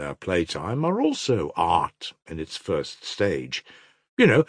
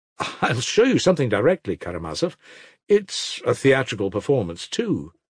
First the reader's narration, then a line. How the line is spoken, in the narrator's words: said, laughing nervously